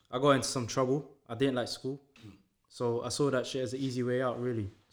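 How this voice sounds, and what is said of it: London accent. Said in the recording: “you can tell from my accent, I grew up in London.”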